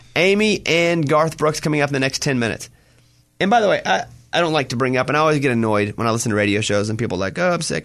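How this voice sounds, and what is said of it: Slightly burnt, rough voice. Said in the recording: “My voice is a little burnt because of the medicine I was taking, and I didn't sleep but like 30 minutes last night ... my voice is a little bit burnt”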